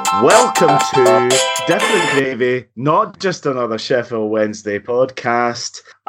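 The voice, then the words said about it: Congested voice with Scottish tinge. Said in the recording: “I've caught the accent and I've also caught a cold”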